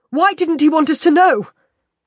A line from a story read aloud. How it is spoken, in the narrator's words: I shout into the empty air